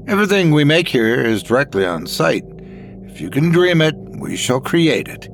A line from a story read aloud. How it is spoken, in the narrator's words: Talbot exclaimed